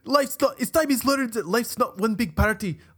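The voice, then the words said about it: Groundskeeper Willie Scottish accent impression. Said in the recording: “in the words of Groundskeeper Willie ... that was a good accent, dude.”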